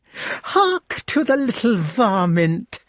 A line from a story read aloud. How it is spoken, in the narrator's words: she cried